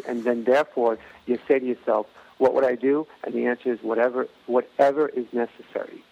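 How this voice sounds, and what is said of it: New York accent. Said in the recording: “You have that great New York accent.”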